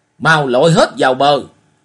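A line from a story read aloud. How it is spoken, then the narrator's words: Cracked interrupting shout. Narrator (Vietnamese): Hồng lão trang chủ cắt ngang thét lạc giọng nói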